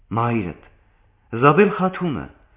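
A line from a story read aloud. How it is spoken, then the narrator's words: Exclaiming. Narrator (Armenian): բացականչեց Ժանետան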